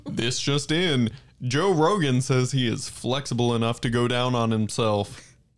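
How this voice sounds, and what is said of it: Mock newscaster voice, not very convincing. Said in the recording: “use your best newscaster voice ... That wasn't even good”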